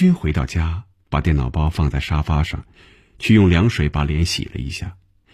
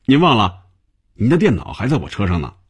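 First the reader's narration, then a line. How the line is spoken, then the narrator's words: Cheerful. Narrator (Chinese): 小丁笑着对红军说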